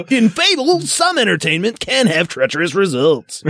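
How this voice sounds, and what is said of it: Morning zoo radio DJ voice. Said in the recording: “I did that in morning zoo radio voice”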